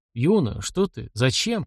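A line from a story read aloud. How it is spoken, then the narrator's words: Mumbled. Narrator (Russian): пробормотал он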